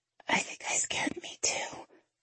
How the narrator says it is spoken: I whisper

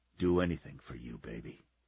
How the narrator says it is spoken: whispered

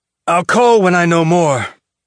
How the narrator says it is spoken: Holden said with a grunt

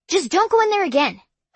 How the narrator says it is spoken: I blurted out

